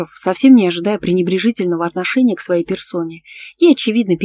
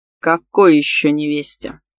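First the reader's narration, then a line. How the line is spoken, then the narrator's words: Menacing growl. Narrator (Russian): грозно рыкнул Андрей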